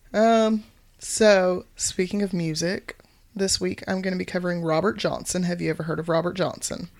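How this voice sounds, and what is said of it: Voice sounds a little off. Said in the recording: “I was sick. That's why my voice is a little hinky today.”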